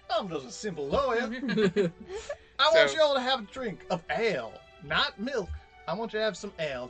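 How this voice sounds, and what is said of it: Put-on Southern lawyer accent. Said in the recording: “sort ... southern ... Of like a southern lawyer”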